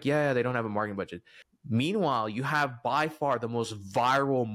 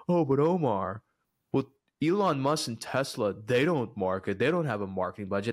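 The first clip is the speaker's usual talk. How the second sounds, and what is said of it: Mocking impression of a skeptic. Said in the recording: “I hear these people in my head ... this is my favorite impression”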